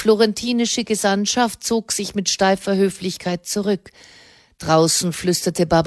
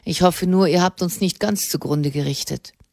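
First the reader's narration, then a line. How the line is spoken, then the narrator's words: Dry reply. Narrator (German): erwiderte Alessandro Della Tella trocken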